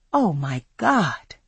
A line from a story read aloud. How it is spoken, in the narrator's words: I whispered